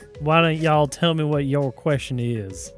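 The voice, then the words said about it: Put-on Southern accent. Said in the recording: “we're going Southern accent”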